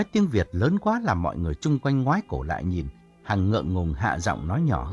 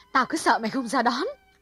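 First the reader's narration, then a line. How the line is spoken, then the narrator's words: Cheerful and loud. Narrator (Vietnamese): Hằng chạy lại hớn hở nói lớn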